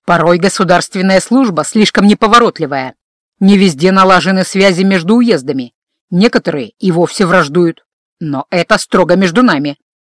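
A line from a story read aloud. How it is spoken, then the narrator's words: Menacing. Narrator (Russian): грозно добавил он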